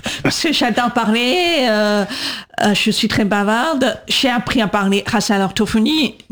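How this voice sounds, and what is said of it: Atypical voice, accent from speech therapy. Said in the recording (French): “j'ai cette voix un peu atypique, cet accent que j'ai, c'est parce que j'ai fait l'orthophonie ... j'ai gardé cette voix, cette marque”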